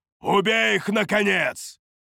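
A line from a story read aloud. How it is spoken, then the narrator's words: Barking in broken language. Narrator (Russian): Рявкнул он на корявом ситарийском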